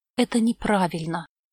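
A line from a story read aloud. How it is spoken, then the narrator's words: Whisper. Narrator (Russian): прошептала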